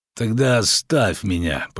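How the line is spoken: Wounded man groaning. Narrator (Russian): простонал раненый

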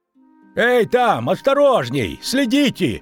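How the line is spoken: Shouting. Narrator (Russian): крикнул Богольд

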